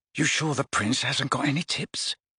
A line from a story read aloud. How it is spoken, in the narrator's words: Ron muttered to Harry